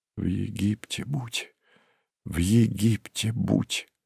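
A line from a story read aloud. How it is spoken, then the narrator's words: Whispered repetition like prayer. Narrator (Russian): Шепотом повторял и повторял он, как молитву или заклинание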